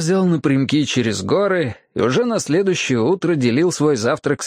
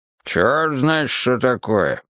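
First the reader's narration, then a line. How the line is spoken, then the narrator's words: Grumbling. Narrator (Russian): ворчал тот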